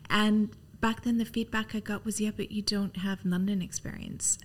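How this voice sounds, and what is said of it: Canadian English accent. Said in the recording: “your accent, you know, you don't sound British. Like, yeah, I'm Canadian. I don't sound British.”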